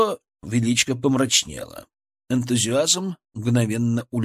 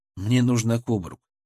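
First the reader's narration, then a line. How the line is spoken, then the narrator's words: Calm but firm. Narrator (Russian): сказал я спокойно, но твердо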